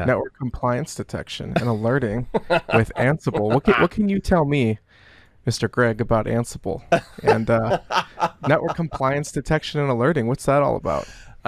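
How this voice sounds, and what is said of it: Put-on soft radio announcer voice. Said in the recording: “radio voice that you're affecting. This ASMR on the Shure mic is maybe a little bit more than I can handle”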